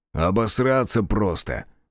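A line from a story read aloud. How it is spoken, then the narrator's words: Snorting. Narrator (Russian): фыркнул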